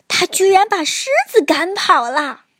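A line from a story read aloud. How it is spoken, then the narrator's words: Laughing loudly. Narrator (Chinese): 猴子大笑着说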